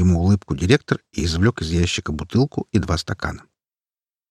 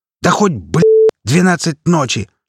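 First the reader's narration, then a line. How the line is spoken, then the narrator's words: Barked, angry. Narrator (Russian): рявкнул директор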